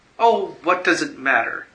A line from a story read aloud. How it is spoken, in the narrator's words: she cried